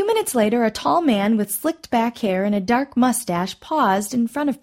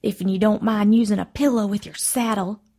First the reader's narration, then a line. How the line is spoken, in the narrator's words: Ruby Mae muttered under her breath